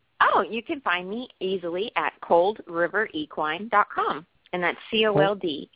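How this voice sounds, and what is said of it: Southern American accent. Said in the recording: “in case I have a southern accent, it sounds like coal”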